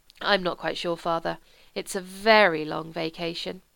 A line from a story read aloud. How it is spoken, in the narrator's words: said wistfully